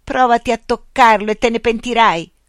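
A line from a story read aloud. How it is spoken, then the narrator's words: Yelled. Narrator (Italian): urlò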